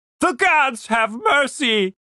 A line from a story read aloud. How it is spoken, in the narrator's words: cried Captain Reynolds